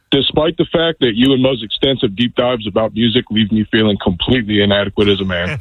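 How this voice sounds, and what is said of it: Rich radio-style voice. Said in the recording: “that cat's got a radio voice ... This is a nice-ass voice you had, sir.”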